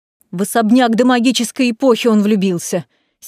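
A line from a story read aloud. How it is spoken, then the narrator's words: Angry, curt. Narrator (Russian): Сердито бросаю я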